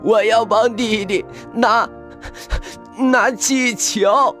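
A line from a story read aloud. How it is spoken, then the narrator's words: Wailing loudly. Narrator (Chinese): 小一突然放声大哭起来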